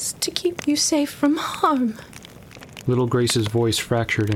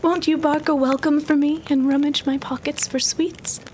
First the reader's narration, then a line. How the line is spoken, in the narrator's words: she pleaded and begged